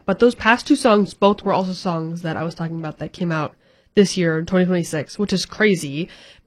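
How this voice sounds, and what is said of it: Congested, stuffy-nosed, weak voice. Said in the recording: “my voice is like gone. My nose is all stuffy. ... my allergies have just been so bad”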